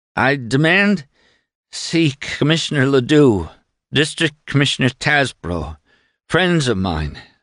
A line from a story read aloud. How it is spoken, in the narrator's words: stammered Doremus